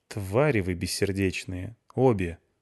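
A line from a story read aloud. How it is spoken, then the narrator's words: Weary. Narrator (Russian): сказала Клюся устало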